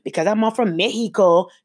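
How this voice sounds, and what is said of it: Stereotypical fake Mexican accent. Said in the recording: “the fake Mexican accent, which, yes, I did just do the exact same thing too ... that's not a real accent of any Hispanic. It's a stereotypical one”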